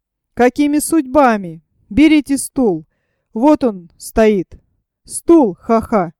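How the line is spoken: Loud laughter. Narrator (Russian): расхохотался

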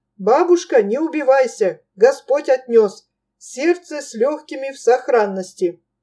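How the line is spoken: Cheerful, smiling. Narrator (Russian): Бодро улыбнулся Илья и, обращаясь к все еще молившейся Клюке, сказал

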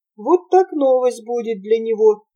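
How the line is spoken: Laughing murmur. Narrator (Russian): приговаривала она, смеясь

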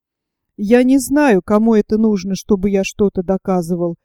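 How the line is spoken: Objected gloomily. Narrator (Russian): возразил я мрачно

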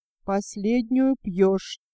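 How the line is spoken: Quiet warning. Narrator (Russian): тихо предупредила Нина

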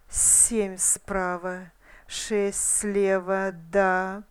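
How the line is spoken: Hiss. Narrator (Russian): прошипел он

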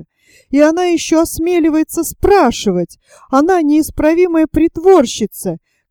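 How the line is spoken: Shouting loudly. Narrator (Russian): кричала она на весь дом

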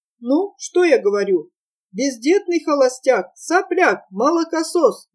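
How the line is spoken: Yelling. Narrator (Russian): завопил Эд

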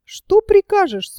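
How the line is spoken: Little man's thin voice. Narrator (Russian): спрашивает Янку тоненьким голоском человечек

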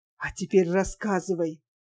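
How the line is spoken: Whispered question. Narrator (Russian): Артемьев шепотом спросил

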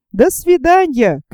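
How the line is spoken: Calling out after. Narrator (Russian): крикнул им вдогонку Пенкроф

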